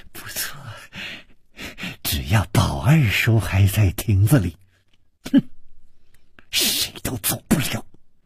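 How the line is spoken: Malicious, smiling. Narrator (Chinese): 施少奶奶的嘴角也泛起了一丝恶意的微笑，说

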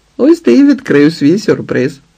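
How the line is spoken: Laughing. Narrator (Ukrainian): розсміялася Ліда

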